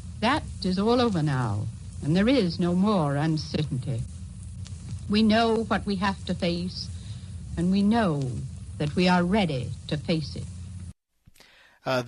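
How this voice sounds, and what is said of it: Old-fashioned continental accent. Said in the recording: “I love that continental accent that she's got. Boy, it's phenomenal. You really don't hear that now.”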